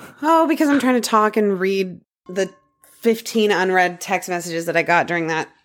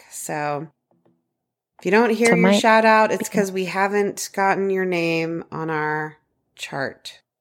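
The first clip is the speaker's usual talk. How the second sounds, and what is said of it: Flat, robotic monotone delivery. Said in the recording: “Why are you talking like a robot?”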